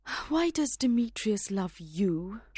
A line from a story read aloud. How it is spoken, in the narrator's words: She asked Hermia with a sigh